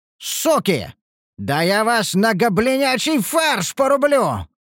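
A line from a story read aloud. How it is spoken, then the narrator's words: Furious roar. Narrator (Russian): взревел я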